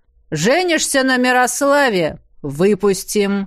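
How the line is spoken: Stern voice. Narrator (Russian): Строгим голосом пообещала мужчине староста

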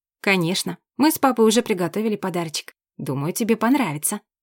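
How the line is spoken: Mother, calm reply. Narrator (Russian): Мама почему-то совсем не удивилась и спокойно ответила

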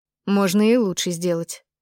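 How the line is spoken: Dismissive snort. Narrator (Russian): фыркнула мама

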